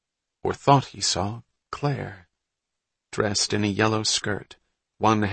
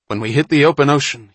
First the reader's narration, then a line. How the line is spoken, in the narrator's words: he said